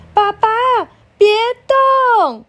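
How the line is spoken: Loud worried shout. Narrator (Chinese): 小杰怕他滚下来，大声叫着

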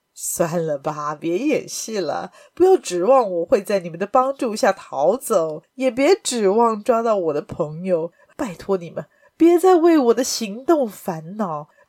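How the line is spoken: Smiling. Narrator (Chinese): 亚森·罗平微笑地说

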